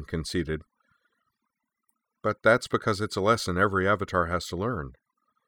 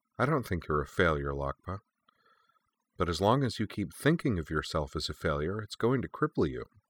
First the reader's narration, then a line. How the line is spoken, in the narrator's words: told her gently